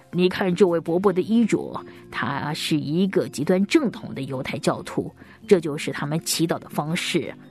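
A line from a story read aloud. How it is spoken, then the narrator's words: Soft-spoken father. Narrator (Chinese): 爸爸轻声的对我说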